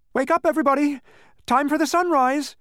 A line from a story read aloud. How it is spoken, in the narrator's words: he shouted with relief